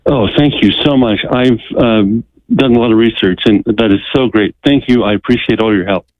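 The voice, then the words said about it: Relieved, grateful tone. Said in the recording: “I can hear the relief in your voice”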